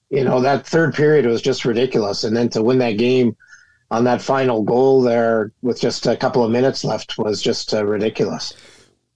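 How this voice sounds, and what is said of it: Gravelly, rough voice. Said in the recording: “my voice is a little gravelly today”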